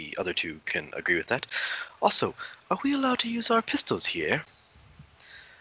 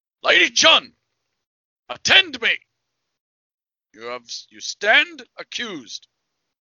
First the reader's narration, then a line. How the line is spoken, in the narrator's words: he yells, he yells out